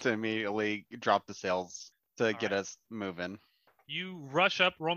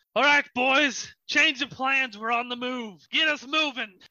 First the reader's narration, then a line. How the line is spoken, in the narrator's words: The captain yells out